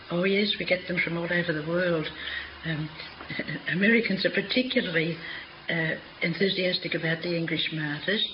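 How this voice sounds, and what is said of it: Australian accent. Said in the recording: “your accent betrays you. You're not English, are you? ... I come from Australia”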